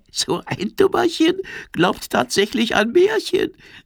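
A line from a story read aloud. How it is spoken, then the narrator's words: Giggling dragonfly. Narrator (German): kichert die Libelle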